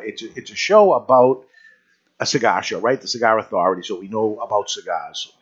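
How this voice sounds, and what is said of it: New England accent. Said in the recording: “the New England accent, yes, we are up here. We're from the Boston area.”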